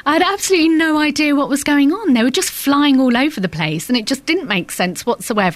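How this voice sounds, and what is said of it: Put-on posh voice. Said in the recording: “doing your posh voice ... she doesn't talk like that in real life”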